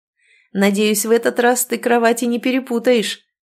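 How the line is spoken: Laughing. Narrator (Russian): засмеялся Игорь

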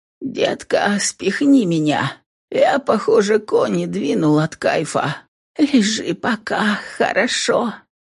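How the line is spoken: Hoarse, strained voice. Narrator (Russian): Ответила она тоже изрядно просевшим голосом

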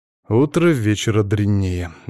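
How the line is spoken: Involuntary sigh. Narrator (Russian): невольно вздохнул он

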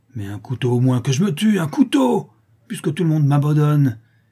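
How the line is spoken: Savage furious shout. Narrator (French): cria le misérable avec une furie sauvage

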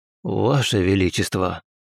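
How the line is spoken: Heavy sigh. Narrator (Russian): тяжело вздохнул

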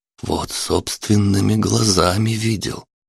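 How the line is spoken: Near whisper. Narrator (Russian): Палыч уже практически шептал

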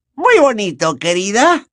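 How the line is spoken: Grandmother's falsely cheerful voice. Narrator (Spanish): añadió la abuela de Neville con una voz falsamente alegre

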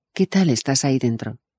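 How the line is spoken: Plain. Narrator (Spanish): pregunto

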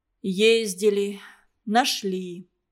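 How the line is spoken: Hesitant, muffled. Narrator (Russian): Митя не сразу глухо сказал

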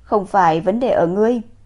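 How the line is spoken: Sighing. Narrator (Vietnamese): Hắn rút cuộc thở dài một cái

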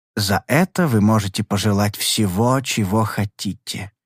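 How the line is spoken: Soft. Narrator (Russian): мягко сказал мне Чанг Личинг

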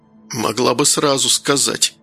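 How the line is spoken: Hoarse wheeze. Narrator (Russian): прохрипел Данил

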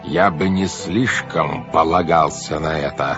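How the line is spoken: Very menacing voice. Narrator (Russian): сказал он грозным-грозным голосом

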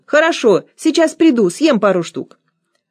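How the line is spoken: Shout. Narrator (Russian): Чтобы она отвязалась, я крикнул

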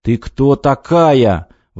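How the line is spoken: Exclaiming. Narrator (Russian): воскликнул Крылов

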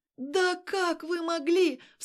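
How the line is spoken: Shocked cry. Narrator (Russian): вскрикнула она, понимая ситуацию

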